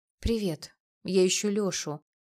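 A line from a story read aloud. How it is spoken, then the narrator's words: Pitiful voice, trying confidence. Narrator (Russian): произнесла я каким-то слишком жалким голосом, хоть и старалась говорить уверенно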